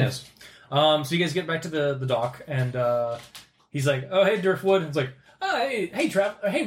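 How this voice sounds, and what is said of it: Usual voice. Nothing is said of it.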